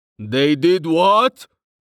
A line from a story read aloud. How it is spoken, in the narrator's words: Hagar's voice boomed from within the inn